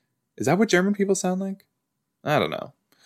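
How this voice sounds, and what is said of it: Usual voice. Nothing is said of it.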